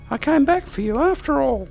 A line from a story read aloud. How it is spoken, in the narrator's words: Slifania exclaimed, and they were both rocked with laughter